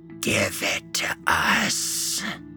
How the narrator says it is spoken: a high, raspy voice hissed not a mere 2 feet away from Ben's face

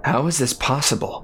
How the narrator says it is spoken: Jack asked anxiously

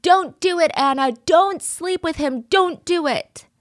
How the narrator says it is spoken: He said he's screaming to nobody in particular

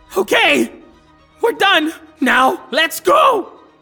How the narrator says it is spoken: they shout

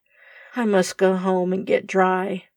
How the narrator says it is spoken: muttered Tom, much embarrassed

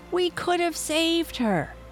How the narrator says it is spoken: yelled at his friend

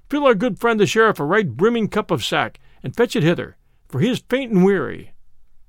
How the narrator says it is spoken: cried

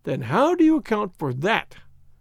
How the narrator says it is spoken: cried Hopkins

